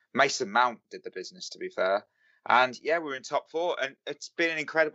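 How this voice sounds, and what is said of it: British accent. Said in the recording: “the accent gives it away. I, am from the uh, good old UK”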